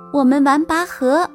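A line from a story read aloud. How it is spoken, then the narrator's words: Kitten meowing. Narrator (Chinese): 小猫喵喵地叫着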